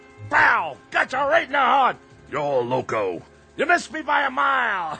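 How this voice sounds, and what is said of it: Loud yelling. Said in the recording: “do you know how loud you're yelling?”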